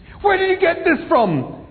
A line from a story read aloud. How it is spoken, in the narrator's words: He yelled